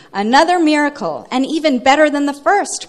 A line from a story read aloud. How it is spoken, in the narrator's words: cried David